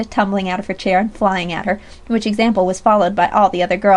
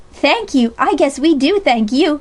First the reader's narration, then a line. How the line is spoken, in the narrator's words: cried Sally more heartily